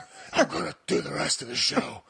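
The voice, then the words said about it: Batman character voice. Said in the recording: “This stupid voice... once I start talking like this, I can't stop”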